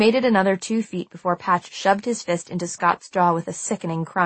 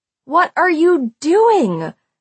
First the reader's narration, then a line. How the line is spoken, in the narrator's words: I yelled at Patch